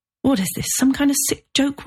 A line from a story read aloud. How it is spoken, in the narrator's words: Robert pleaded